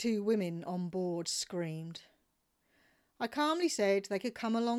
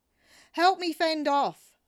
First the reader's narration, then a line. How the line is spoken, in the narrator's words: shouted